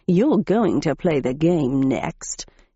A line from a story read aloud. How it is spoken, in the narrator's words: he growled